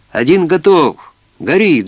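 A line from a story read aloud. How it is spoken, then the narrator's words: Shouted. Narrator (Russian): закричал Стан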